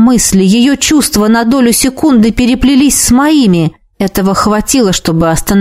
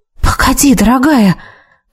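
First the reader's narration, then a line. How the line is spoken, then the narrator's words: Faint uncertain whisper. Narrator (Russian): То ли прошептала, то ли подумала я, не понимая, как лучше к ней обращаться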